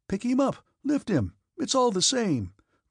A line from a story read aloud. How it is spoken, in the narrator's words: cried someone